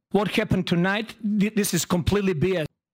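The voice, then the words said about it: Put-on Serbian accent. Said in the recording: “if you're going to do a Serbian accent around me, the W's are V's.”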